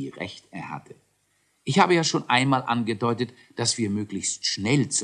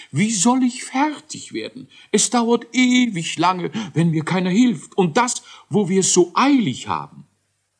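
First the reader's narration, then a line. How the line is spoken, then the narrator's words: Whining, lamenting. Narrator (German): jammerte Kakeldei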